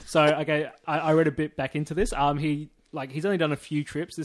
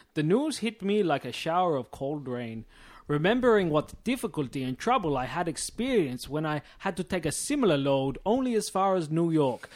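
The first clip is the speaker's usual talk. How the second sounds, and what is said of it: Put-on Dutch accent. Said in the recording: “I'll do a Dutch accent.”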